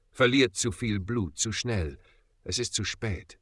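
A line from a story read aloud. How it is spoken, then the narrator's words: Quiet. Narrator (German): sagte leise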